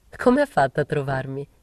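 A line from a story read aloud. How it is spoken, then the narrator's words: Laughing. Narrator (Italian): gli dissi ridendo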